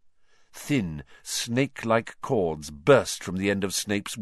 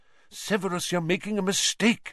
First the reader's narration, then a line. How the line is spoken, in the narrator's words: said Lupin urgently